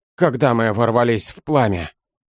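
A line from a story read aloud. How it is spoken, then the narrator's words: Gloomy but perfectly calm. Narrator (Russian): Мрачно, но совершенно спокойно проговорил Серый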